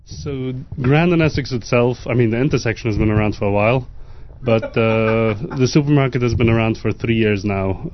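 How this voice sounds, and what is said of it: English accent. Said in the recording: “Why do you have an English accent?”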